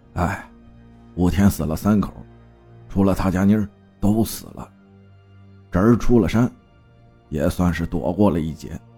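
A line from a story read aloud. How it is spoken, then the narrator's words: Sighing. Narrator (Chinese): 李长根才叹道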